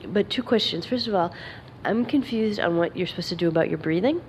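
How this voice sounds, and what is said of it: Congested voice from a cold. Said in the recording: “sorry, I have a cold.”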